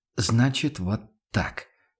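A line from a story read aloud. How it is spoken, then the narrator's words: Quiet statement. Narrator (Russian): констатировал Ван Ален тихо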